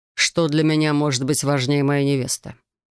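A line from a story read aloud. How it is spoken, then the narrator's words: Calm question. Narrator (Russian): спокойно спросил его величество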